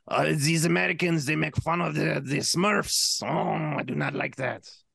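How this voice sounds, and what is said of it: Attempted Belgian accent sounding French. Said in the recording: “I wish I could do a Belgian accent, but my Belgian accent probably just sounds French. ... That was like 10,000% French.”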